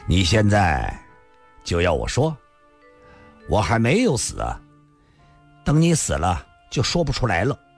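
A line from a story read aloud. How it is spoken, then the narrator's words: Laughing. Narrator (Chinese): 李寻欢又笑了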